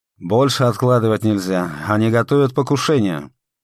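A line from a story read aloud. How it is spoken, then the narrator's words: Stern old man. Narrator (Russian): Маленький старичок строго сказал Седову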